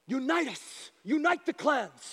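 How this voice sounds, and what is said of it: Put-on movie character accent. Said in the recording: “he gets this accent”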